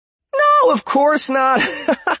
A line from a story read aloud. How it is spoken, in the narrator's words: Question chuckled